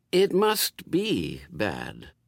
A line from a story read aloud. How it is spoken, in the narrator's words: reasoned Aziraphale, in the slightly concerned tones of one who can't see it either and is worrying about it